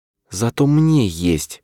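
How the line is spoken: Barely audible whisper. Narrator (Russian): прошептала она едва ли громче звука дыхания

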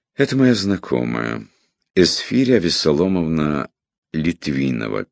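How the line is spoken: Sad reply. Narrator (Russian): печально ответил чиновник

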